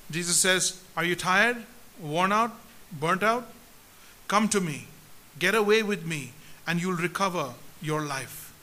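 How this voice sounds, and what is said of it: Very slow, deliberate reading. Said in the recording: “I want to read this very slowly ... I'm going to read it very slowly.”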